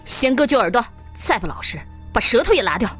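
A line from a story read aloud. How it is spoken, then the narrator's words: Angry. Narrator (Chinese): 江海花大怒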